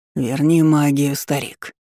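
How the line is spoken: Hoarse rasp. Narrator (Russian): прохрипел из королевской ложи лорд Омерс

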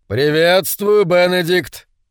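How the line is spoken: Deep bass voice. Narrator (Russian): пробасил

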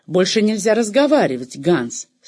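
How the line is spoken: Mother's stern interruption. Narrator (Russian): строго оборвала его мать

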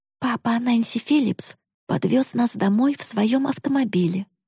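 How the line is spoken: Quiet. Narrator (Russian): тихо сказала

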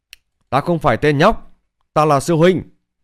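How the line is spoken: Angry shout. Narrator (Vietnamese): Bạch Hiểu Thuần tức giận hét lên

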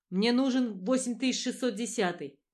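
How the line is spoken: Nearly shouting. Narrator (Russian): почти кричал Брэддок

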